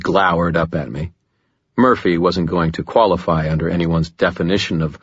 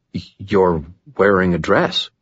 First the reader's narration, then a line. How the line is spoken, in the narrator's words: It took me a minute to stammer